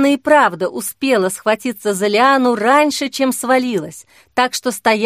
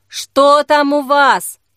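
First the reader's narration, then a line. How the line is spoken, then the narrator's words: Shout. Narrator (Russian): крикнул Вадим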